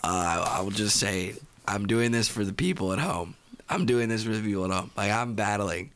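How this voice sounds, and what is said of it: Hoarse, nearly lost voice. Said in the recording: “why you sound so horrible? ... my voice is gone”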